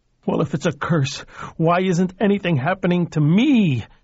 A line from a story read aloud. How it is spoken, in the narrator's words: shrieked suddenly